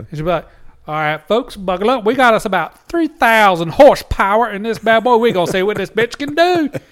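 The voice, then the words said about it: Put-on Southern accent. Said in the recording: “throw that Southern accent in there for real”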